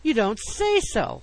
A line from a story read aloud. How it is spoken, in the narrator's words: I gasped